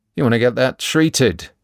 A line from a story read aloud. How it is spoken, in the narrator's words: he persists